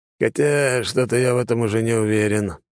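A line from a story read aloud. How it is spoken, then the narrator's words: Heavy sigh. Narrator (Russian): тяжело вздохнул Конаков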